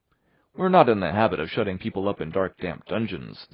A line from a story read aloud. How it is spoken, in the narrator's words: said Marilla, dryly